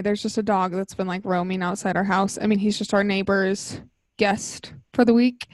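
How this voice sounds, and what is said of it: Out of breath, breathing heavily. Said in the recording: “I'm out of breath right now from chasing Twix around the house ... I just could feel that I was like breathing heavily into the mic”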